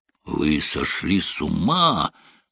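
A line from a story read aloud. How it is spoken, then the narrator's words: Hollow, muffled voice. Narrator (Russian): глухо проговорил Локвуд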